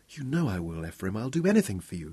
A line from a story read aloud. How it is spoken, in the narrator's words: murmured